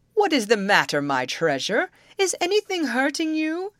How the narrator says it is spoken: he woke and cried to the horse

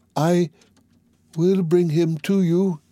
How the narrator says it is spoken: said in a weak voice

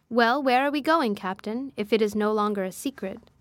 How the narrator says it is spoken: asked the engineer

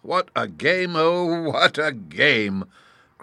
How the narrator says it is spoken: cried the Chancellor

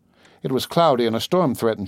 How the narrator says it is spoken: she said

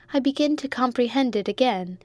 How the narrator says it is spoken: exclaimed Rose, delighted

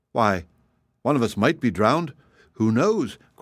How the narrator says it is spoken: cried another

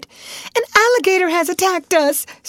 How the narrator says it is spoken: screamed Alice

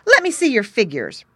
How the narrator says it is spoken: Brownie Beaver cried

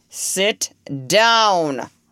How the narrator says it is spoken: roared the judge

